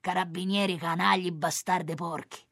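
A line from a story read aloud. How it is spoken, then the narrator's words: Muttered through teeth. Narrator (Italian): dice tra i denti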